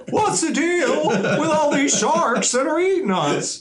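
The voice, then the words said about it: Jerry Seinfeld impression. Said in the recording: “Jerry Seinfeld ... I apologize for that impression.”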